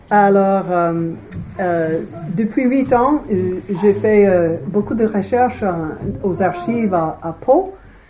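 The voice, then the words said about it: Strong American accent in French. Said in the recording (French): “je ne parle pas bien le français. Avec un grand accent américain.”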